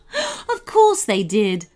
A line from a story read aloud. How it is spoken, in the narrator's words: laughed the queen, although there was little happiness in it